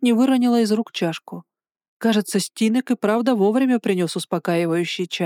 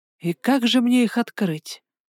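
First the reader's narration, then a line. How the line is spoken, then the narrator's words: Gloomy question. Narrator (Russian): мрачно поинтересовалась я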